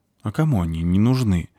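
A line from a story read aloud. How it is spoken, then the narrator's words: Sigh. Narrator (Russian): вздохнула спичка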